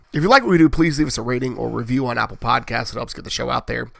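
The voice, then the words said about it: Raspy voice. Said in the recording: “raspy voiced host this week, like I am not every week”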